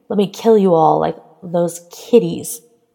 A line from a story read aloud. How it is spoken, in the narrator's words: He spat at her